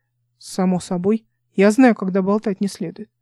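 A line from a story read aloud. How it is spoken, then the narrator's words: Offended deep voice. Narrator (Russian): с обидой пробасил Чарльз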